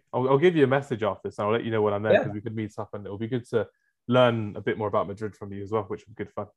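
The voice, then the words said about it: Speaks with a noticeable accent. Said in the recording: “It was my accent.”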